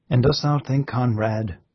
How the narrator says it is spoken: said the old man, in his gentle, patient voice

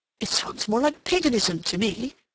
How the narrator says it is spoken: Rodney groaned

